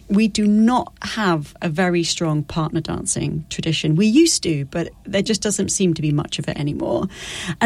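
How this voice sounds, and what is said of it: British accent. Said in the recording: “I'm from the UK. You can probably hear my accent.”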